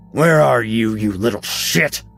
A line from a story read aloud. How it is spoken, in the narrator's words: Barry growled